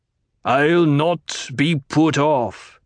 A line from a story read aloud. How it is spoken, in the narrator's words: the Colonel Basha snarled